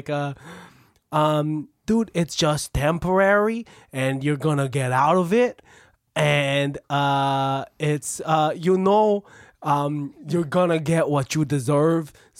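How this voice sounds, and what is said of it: Put-on New Jersey accent. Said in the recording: “you switch into like a New Jersey accent”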